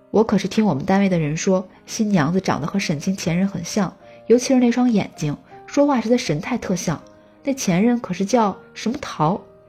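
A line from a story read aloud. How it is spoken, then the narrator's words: Plain. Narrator (Chinese): 雅雅说完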